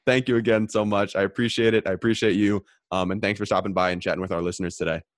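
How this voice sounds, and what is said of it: Hoarse, failing voice. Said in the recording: “I'm losing my voice over here”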